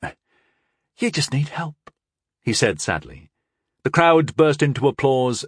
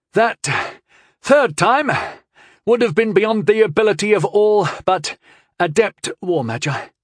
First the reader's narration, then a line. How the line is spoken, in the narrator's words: he instructed, panting from the exertion